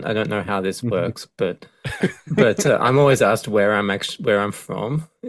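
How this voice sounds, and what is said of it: Australian accent, somewhat international-sounding. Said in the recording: “you're the first person from Australia ... greatest accent in the world ... I don't even have a proper Australian accent ... I think my accent's a little too international.”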